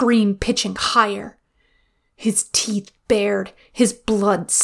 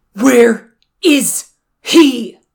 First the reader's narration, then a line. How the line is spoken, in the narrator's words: Jiang Cheng bellowed into the Wundog's face